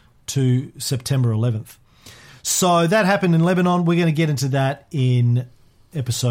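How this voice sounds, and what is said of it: Usual voice. Nothing is said of it.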